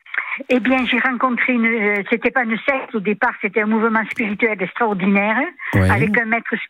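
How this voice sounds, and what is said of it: Southern French accent. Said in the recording (French): “On adore votre accent du sud”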